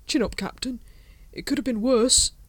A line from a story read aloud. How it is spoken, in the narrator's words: Kolon stretched uneasily and said